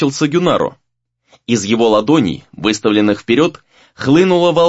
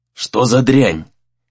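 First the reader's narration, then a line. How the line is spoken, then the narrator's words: Hoarse. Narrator (Russian): хрипло спросил Дейтин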